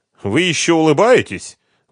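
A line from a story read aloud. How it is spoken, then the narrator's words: Indignant. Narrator (Russian): возмущенно сказала Инна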